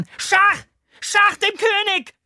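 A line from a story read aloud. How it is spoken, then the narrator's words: Startlingly loud shout. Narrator (German): schrie derart laut, dass wir alle zusammenfahren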